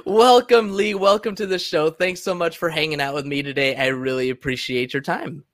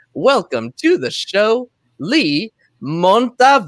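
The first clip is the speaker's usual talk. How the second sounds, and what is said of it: Says a name in a put-on accent. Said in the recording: “Totally said that with an accent.”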